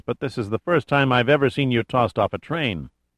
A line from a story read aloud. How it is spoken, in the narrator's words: Giordino said in a dour voice